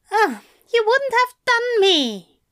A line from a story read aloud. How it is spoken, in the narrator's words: Aziraphale cried